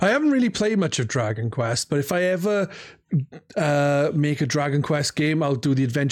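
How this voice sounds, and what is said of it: Usual voice. Nothing is said of it.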